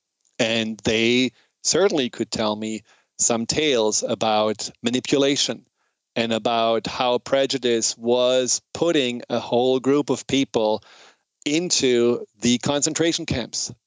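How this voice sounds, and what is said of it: German accent in English. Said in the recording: “hear from my accent, I'm German”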